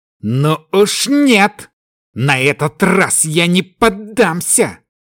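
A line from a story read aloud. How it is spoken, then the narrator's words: Growling. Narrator (Russian): зарычал Кай, вспомнив, как ранее холод пустоты уже захватил его душу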